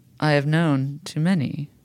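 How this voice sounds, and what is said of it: Mystical guru character voice. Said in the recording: “I'm trying to do my best guru voice.”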